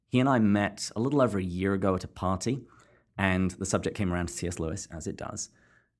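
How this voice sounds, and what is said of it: Distinctive non-American accent. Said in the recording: “this delightful accent”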